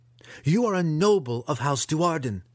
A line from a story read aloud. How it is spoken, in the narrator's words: Verna shouted at him